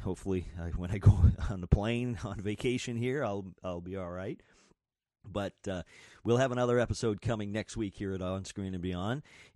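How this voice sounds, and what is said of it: Sick, strained voice. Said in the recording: “not feeling quite right here. As you can tell, my voice is a little messed up because of being sick and a fever”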